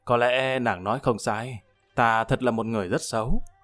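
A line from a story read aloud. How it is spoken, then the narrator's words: Sighing, helpless. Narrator (Vietnamese): Lâm Văn Vinh thở dài, đành bất lực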